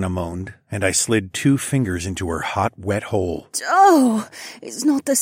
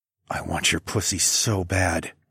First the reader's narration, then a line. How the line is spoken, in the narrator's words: I whispered